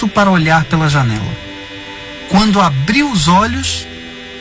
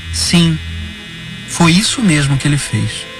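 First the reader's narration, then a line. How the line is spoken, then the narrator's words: Sighing, weary. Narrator (Portuguese): suspirou e disse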